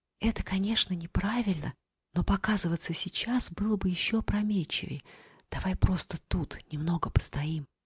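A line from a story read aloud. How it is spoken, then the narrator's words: Whisper. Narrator (Russian): шепотом сказала она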